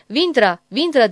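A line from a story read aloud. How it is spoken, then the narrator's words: Shouting. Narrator (Turkish): diye bağırdı kocasının arkasından koşan Susu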